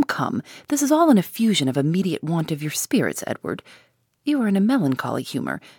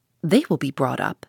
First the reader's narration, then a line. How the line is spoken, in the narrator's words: said he in a serious accent